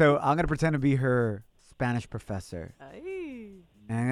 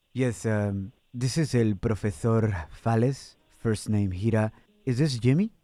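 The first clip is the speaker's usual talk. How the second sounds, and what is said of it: Put-on Spanish (Spain) accent. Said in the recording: “I'm going to try to do my best Spain accent”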